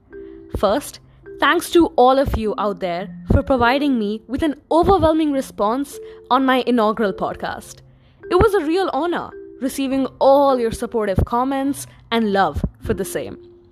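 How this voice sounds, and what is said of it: Excited, energetic voice. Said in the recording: “you can hear the excitement in my voice.”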